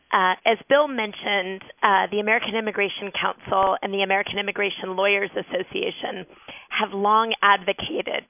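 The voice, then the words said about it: Raspy voice. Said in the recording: “Apologies in advance for my raspy voice.”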